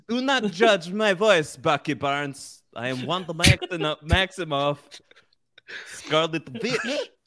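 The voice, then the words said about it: Put-on Eastern European Russian accent. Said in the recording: “Is your voice Russian? ... you seem to be slipping into a strange Eastern European Russian accent.”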